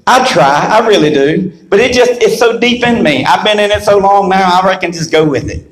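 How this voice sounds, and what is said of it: East Carolina Southern US accent. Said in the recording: “this southern dialect that I've got ... my East Carolina southern dialect”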